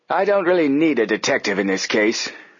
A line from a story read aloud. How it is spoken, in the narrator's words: Hurd Applegate snapped